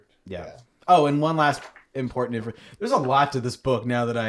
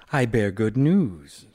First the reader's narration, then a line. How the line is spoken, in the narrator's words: said Roan